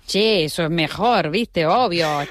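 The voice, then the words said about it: Put-on Argentine accent, changed tone. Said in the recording (Spanish): “Yo sé hacer de Argentina. A mí me cambia el acento, mira, me cambia hasta el tono de voz”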